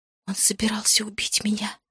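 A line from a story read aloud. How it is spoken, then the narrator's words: Whisper. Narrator (Russian): прошептала я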